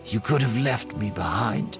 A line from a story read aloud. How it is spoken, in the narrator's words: she said quietly